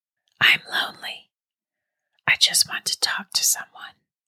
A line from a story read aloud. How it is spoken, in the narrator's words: said, still in a whisper